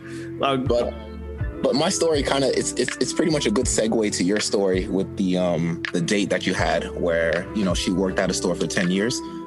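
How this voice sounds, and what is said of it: Speaks with a noticeable accent. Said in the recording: “you got an accent to me ... I have an accent. A lot of people say I have an accent”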